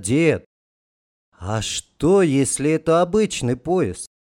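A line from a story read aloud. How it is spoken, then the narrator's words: Quiet, sudden question. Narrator (Russian): Володька тихо спросил неожиданно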